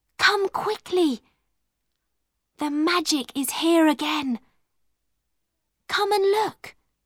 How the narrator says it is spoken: she whispered

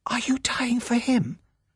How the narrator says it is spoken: she whispered

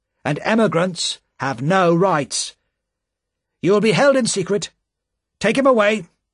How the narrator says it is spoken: said the official sharply

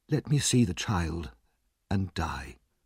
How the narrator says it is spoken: His mother whispered

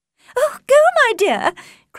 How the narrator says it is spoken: cried Mrs

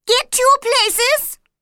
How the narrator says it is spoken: the Queen shouted

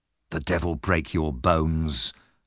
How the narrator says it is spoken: the man said through his teeth

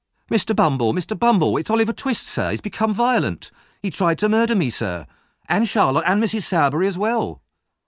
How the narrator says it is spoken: Noah cried

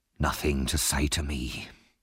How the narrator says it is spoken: Sykes asked

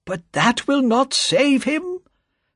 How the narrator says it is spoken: cried Mr

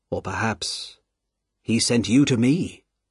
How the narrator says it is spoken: says Sidney Carton

